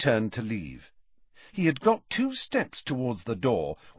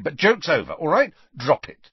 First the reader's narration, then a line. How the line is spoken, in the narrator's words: said Harry impatiently